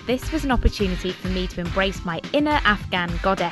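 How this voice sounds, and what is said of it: English accent. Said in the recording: “With her English accent.”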